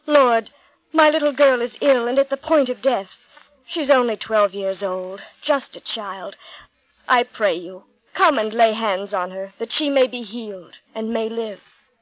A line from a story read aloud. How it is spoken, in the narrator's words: he cried out